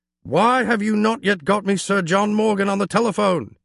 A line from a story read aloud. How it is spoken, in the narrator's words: he shouted at his assistant